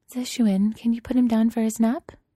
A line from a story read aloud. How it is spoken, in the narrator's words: Zhe Zhe asks, smiling sweetly